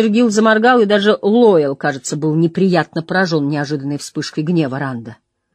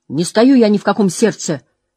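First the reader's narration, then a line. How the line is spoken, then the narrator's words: Said sharply. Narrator (Russian): резко сказал он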